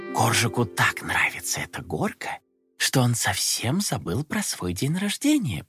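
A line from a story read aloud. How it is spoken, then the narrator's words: Mother's whisper. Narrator (Russian): прошептала мама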